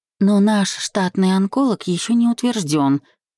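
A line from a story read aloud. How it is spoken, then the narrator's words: Timid reminder. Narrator (Russian): робко напомнила жена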